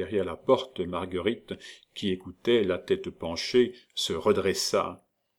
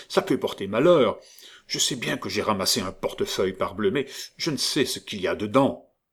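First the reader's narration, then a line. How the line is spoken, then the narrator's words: Clerk grumbling. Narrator (French): grommela le troisième clerc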